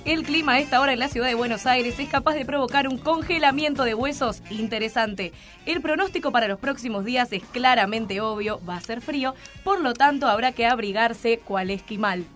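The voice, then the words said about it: Radio announcer voice. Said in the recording (Spanish): “Poniendo voz de locutora”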